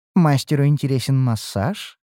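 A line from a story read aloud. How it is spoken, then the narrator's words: Flirtatious purr. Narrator (Russian): мурлыкнула мечтающая стать фавориткой водница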